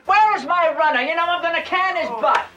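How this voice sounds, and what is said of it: Inconsistent fake British accent. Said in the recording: “Is that a traditional Oklahoma accent? Because I'm thinking, no. ... whatever was going on with that British accent can stop anytime. And actually did stop several times in the three lines that guy had”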